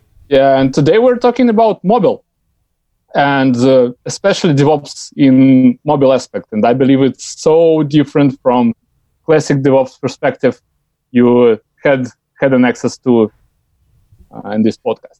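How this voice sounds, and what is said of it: Heavy Russian accent. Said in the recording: “it's a heavy Russian accent”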